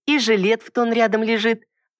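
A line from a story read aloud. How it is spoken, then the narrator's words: Girl exclaiming. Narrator (Russian): обратно воскликнула девушка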